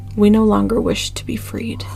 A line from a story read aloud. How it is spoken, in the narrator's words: a single phrase in a calm voice respond